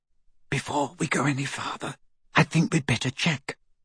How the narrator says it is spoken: whispered Hermione

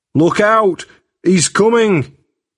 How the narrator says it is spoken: Jack shouted

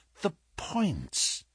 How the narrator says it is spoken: he muttered

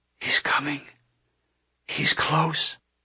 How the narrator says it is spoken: She whispered

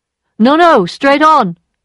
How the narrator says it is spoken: shouted the voice again

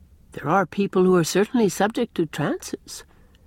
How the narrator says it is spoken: answered Gilbert

